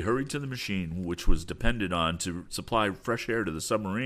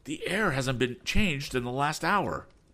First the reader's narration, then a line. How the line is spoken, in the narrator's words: he exclaimed